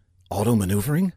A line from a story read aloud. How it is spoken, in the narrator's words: Saffinger whispered to himself, his heart now pounding within his chest